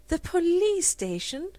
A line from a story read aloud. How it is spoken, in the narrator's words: Rosemary laughed out